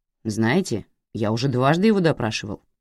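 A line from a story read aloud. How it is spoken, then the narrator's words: Displeased reminder. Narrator (Russian): недовольным тоном напомнил Болдуин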